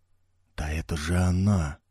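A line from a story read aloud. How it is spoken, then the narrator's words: Young, mumbling. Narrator (Russian): пробормотал юный Филиппе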